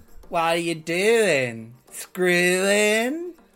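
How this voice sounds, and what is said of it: Imitates another person's voice. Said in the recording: “Do you like my Leslie Jordan impression? ... I liked it a lot.”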